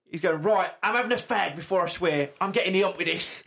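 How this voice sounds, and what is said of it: Imitates another person's voice, badly. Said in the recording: “my very bad Peter Bletchley impression”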